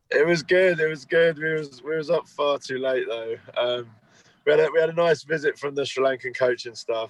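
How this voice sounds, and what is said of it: Croaky, hoarse voice. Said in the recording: “That is croaky. ... I'm extremely hungover, though. ... My voice is gone.”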